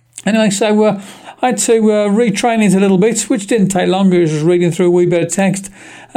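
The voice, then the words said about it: Birmingham accent. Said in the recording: “I've got a bit of a Birmingham accent”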